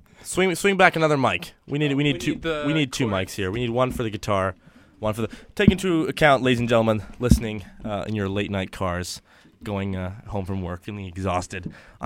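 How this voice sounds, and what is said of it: Raspy, slightly off sick voice. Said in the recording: “I'm sick, so my voice sounds a little off. ... A little raspy. ... Little rasp. Little Sam Elliott.”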